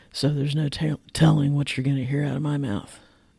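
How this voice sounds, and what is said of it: Rough voice, not fully recovered. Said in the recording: “You can hear why. ... I'm recovering from laryngitis. My voice is getting better, but it's obviously still not 100%.”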